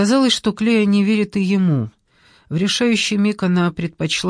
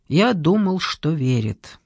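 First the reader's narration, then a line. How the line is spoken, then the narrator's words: Quiet. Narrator (Russian): Джордан тихо сказал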